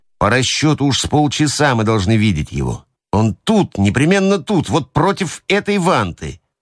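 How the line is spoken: Grumbling. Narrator (Russian): ворчал он

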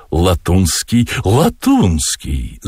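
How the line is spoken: Shrieked. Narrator (Russian): завизжала Маргарита

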